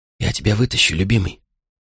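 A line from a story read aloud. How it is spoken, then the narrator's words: Hurried whisper. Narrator (Russian): Мама успела лишь шепнуть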